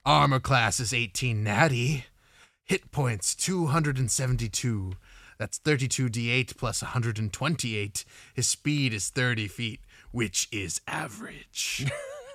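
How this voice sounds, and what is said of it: Spooky villain voice. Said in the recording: “I'll do my spooky... I'm gonna do my stat block read in a spooky voice.”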